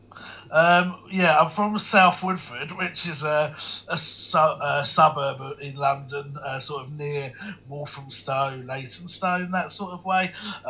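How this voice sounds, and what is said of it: London accent with slight Norfolk twang. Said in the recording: “My accent is obviously a little bit of a mixture and variety of things now... there's a little bit of a Norfolk twang in there... maybe that comes through... ended up with a rather bizarre, maybe”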